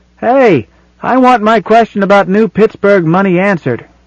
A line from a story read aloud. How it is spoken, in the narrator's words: Someone in the audience called out